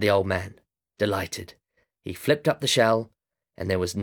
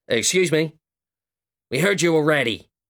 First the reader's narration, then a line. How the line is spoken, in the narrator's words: shouted the old man